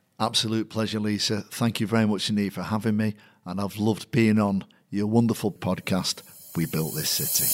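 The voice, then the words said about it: Strong Mancunian accent. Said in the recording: “an even stronger Manc accent”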